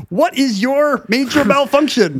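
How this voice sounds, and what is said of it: Drill sergeant voice with Canadian accent. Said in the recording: “I'm trying to do Arlie Ermey and a Canadian accent.”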